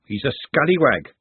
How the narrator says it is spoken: she said firmly

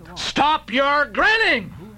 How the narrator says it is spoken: shouted I

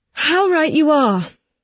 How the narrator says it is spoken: sighed

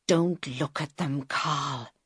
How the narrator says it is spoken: he whispered

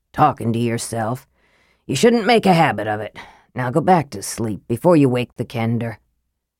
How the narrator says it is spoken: the dwarf grumbled

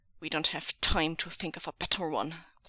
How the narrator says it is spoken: growled Zheng Cheng

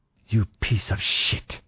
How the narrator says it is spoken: she hissed at me

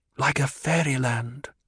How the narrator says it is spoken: Paul whispered

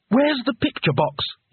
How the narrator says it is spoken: asked urgently

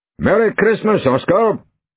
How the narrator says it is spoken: called out Conan Doyle

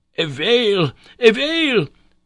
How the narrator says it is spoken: shouted

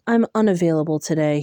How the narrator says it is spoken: said

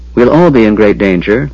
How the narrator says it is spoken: Lorana amended coldly

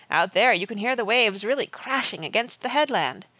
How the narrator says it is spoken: Barney said cheerfully

